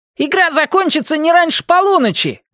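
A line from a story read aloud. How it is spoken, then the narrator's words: Shout. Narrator (Russian): крикнул он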